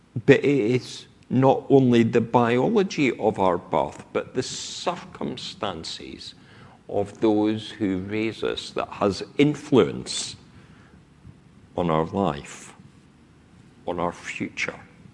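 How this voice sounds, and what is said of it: Scottish accent. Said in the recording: “I speak with my accent because of where I grew up. ... That I have lived south of the Scottish border for more than half my life has not completely taken away this voice, has it? No.”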